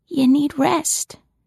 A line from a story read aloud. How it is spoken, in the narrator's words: whispered hoarsely